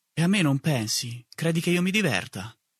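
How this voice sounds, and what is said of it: Plaintive whisper. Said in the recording (Italian): “con voce un po' lamentosa, mi sussurrava”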